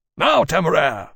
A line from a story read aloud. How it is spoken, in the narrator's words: Lawrence called urgently